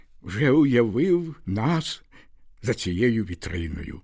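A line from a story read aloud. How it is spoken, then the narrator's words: Exclamation. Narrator (Ukrainian): вигукнув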